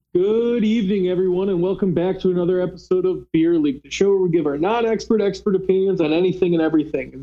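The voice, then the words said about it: Cheerful, upbeat voice. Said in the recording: “if you hear in my voice, I'm very cheerful.”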